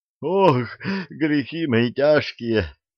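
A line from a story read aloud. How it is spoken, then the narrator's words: Groaning. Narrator (Russian): стонал Почишин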